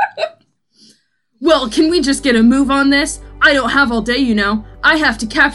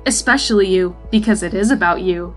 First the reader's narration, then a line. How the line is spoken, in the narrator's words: he added quietly to himself